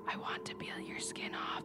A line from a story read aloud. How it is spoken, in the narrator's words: whispered